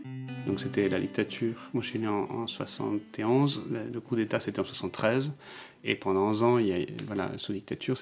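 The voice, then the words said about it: Melodic, singsong accent. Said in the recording (French): “ce délicieux accent chantant”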